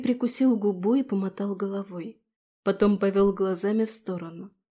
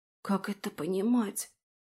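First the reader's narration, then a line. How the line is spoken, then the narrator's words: Barely audible whisper. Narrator (Russian): прошептала я едва слышно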